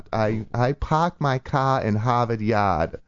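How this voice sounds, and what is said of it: Thick Boston accent. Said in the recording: “That's my Boston accent ... That's a very rich Boston accent.”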